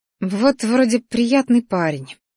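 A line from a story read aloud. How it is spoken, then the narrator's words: Grumbling to herself. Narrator (Russian): бурчала себе под нос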